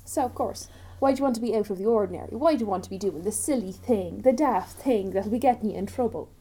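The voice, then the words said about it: Irish accent. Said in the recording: “my countrywoman accent's coming out”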